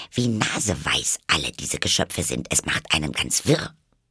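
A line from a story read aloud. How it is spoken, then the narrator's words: Muttering to herself. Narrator (German): murmelte sie vor sich hin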